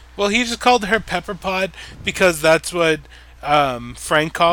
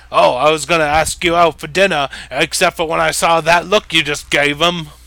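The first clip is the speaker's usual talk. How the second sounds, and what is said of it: Put-on British accent. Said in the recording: “That's a really great British accent. ... Pretty good. ... That's just my Billy Taylor accent.”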